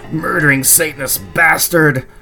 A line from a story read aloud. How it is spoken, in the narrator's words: screamed